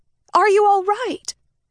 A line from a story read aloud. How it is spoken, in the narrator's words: She shouted in his ear to be heard above the music